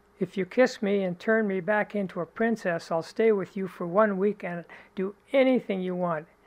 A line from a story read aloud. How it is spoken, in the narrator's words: The frog cried out